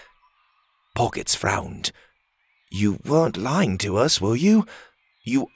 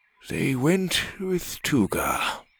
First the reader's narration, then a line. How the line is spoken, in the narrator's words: Brack sighed